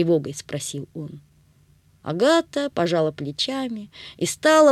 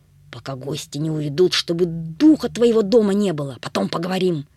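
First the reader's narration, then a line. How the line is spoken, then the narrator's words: Through gritted teeth. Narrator (Russian): папа процедил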